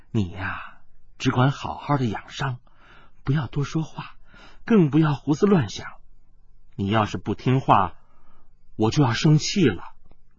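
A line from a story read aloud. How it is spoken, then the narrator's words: Soft voice. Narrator (Chinese): 温黛黛柔声地说道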